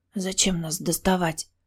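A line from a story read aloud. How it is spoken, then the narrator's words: Whisper. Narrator (Russian): прошептала я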